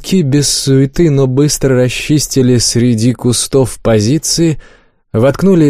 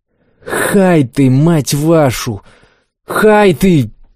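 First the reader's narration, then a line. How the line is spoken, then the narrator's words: Hoarse wheeze. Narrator (Russian): просипел Макс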